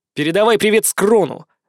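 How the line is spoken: Angry. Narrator (Russian): зло произнес

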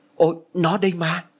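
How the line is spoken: Exclaimed. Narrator (Vietnamese): Thạnh đã kêu lên

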